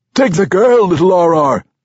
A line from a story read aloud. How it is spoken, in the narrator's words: someone yelled out from the back